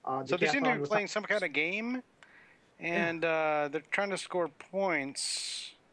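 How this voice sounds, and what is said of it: Impression of Soroka. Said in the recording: “that's my Soroka impression”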